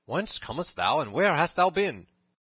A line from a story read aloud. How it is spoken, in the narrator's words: cried the sheriff